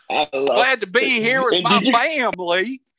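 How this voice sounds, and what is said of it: Mock put-on Southern accent. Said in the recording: “he's got a Southern accent. You phony motherfucker.”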